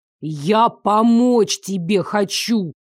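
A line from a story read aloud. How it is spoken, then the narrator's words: Hiss through teeth. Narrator (Russian): Прошипел сквозь зубы Дарек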